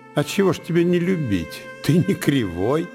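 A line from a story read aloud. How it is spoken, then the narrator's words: Laughing reply. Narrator (Russian): отвечала Марьяна, смеясь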